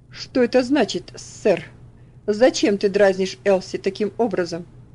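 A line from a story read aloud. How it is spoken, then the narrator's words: Angry. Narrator (Russian): сердито обратился он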